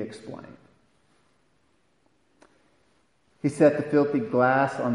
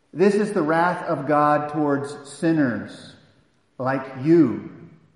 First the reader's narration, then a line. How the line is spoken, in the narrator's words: said